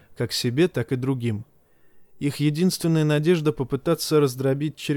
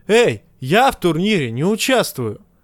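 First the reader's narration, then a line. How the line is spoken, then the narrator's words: Shout. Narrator (Russian): крикнул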